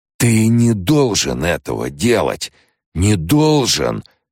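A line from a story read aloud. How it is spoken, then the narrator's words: Preacher's hoarse rasp. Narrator (Russian): хрипел проповедник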